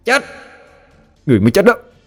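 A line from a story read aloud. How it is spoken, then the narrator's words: Loud certain shout. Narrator (Vietnamese): Quỷ thai cảm thấy chắc 10 mươi, hét lớn một tiếng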